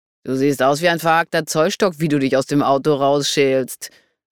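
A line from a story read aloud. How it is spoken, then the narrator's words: Mocking. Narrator (German): spottete Leon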